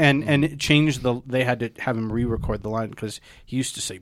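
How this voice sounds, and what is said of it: Usual voice. Nothing is said of it.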